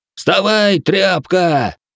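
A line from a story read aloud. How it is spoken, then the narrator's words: Nobleman yelled. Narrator (Russian): заорал вельможа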